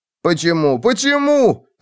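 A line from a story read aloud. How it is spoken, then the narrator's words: Shouting. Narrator (Russian): кричал он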